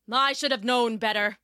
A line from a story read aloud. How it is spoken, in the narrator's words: he grumbled